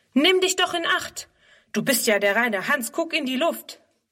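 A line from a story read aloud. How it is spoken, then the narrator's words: Called out. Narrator (German): ruft er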